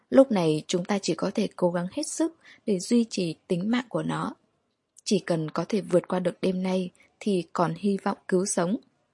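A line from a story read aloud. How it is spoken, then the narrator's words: Gentle. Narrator (Vietnamese): Smith nhẹ nhàng nói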